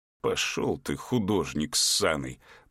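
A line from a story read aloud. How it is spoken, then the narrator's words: Hiss. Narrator (Russian): прошипел владелец магазина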